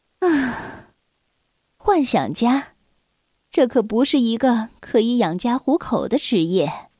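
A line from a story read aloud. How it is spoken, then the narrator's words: Sighing. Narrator (Chinese): 他的妈妈叹着气说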